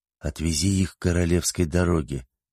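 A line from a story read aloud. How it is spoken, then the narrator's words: Whisper. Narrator (Russian): прошептал хозяин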